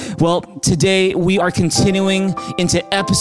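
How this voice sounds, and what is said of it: Usual voice. Nothing is said of it.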